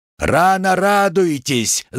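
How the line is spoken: Yelled. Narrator (Russian): заорал Макс

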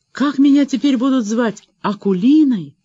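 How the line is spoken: Sigh. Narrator (Russian): вздохнула

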